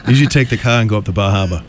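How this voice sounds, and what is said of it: Exaggerated Boston accent, dropped R's. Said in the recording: “this Boston accent ... it's like no R's ... There's like no R's and like four extra vowels”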